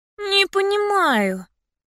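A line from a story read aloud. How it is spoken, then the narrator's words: Groan. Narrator (Russian): простонала я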